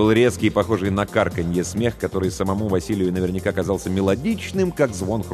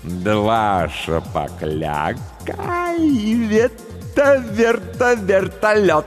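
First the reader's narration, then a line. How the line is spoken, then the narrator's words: Laughing. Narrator (Russian): Он засмеялся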